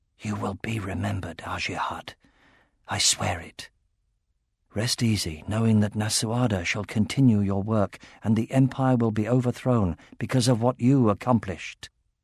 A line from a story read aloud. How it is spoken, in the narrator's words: he whispered past the lump in his throat